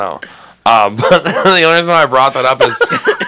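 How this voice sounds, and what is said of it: Usual voice. Nothing is said of it.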